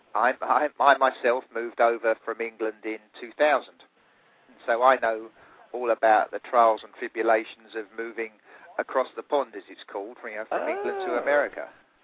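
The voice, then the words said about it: English accent. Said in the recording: “it's an English accent”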